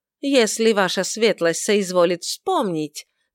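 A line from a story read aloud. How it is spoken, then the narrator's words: Somewhat haughty. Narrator (Russian): заявил он несколько высокомерным тоном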